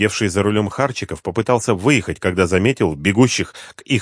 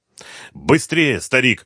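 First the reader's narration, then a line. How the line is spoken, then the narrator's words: Shout. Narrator (Russian): крикнул Слепнев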